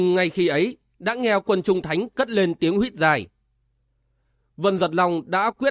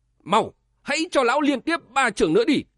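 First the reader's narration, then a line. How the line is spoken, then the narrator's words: Hurried old man's shout. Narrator (Vietnamese): Tây Thiên thần ông vội hét to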